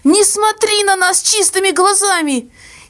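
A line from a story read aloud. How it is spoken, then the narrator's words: Hysterical shout, sobbing mother. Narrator (Russian): истерически выкрикнула мама и зарыдала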